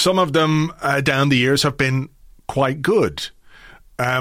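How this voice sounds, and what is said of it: Usual voice. Nothing is said of it.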